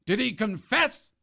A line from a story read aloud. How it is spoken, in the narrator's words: the Duke roared